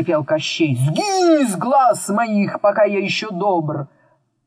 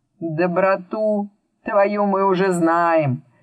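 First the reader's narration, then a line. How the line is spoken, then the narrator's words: Calm. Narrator (Russian): спокойно сказал Мурвей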